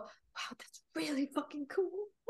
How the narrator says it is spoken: Under my breath, I'm just gonna go

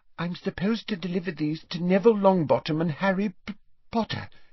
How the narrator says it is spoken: she faltered

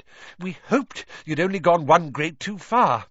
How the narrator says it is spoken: Weasley panted

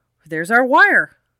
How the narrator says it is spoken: Dave Miller exclaimed

